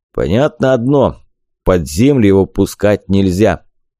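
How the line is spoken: Deep bass voice. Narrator (Russian): басил Вахмурка

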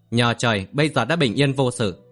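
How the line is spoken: Smiling. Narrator (Vietnamese): Kim Phi Hùng mỉm cười

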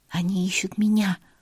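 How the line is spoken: Whisper in ear. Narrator (Russian): прошептала я на ухо Мириам

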